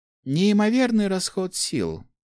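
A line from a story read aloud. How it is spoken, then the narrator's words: Sighing. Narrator (Russian): вздохнула она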